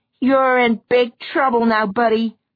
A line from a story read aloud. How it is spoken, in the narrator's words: Eleanor would scream